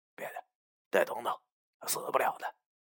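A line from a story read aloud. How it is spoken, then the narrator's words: Soft voice. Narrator (Chinese): 轻声和他说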